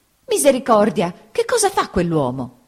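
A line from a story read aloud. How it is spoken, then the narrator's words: Aunt exclaiming. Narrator (Italian): esclamò mia zia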